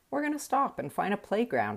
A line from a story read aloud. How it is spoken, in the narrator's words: I said